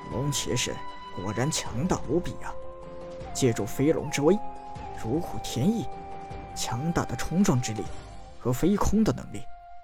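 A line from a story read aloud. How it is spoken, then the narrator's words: Admiring sigh. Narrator (Chinese): 有人叹道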